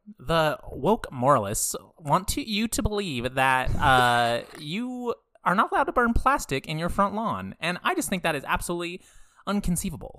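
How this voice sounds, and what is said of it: Imitates another person's voice. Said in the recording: “I do a pretty good Ben Shapiro.”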